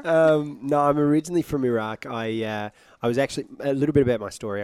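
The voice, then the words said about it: British accent. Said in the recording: “you sound British”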